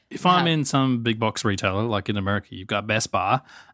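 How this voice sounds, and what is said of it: Speaks with a noticeable accent. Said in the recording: “Sorry about the accent.”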